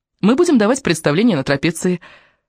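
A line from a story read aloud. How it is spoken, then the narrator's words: Cheerful. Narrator (Russian): весело сказала Крису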